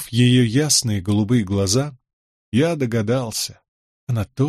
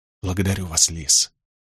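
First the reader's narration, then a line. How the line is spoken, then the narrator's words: Soft whisper. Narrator (Russian): ответил я шепотом, чтобы не разбудить ребенка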